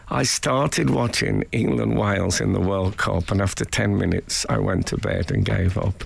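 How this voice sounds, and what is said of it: Voice sounds ill. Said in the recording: “You may be able to tell by my voice, by the way, that I've been ill this week.”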